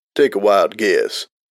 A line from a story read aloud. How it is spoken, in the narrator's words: He replied dryly